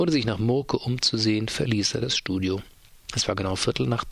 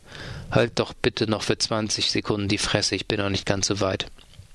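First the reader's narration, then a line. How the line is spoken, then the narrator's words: Calm, into microphone. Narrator (German): sagte ruhig ins Mikrofon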